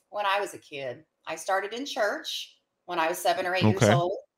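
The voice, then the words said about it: Southern American twang. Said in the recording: “I can hear a twang in there or something. I don't know if that's the right word. ... Yes, that's it. Yeehaw and howdy.”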